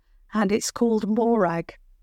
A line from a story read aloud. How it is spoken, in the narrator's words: said Harriet the Hare with a little laugh